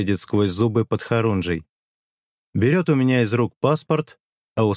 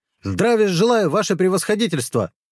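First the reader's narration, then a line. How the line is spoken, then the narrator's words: Barked. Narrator (Russian): рявкнул Подхорунжий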